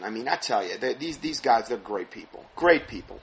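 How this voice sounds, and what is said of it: Sarcastic delivery. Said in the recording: “Obviously, I'm being sarcastic.”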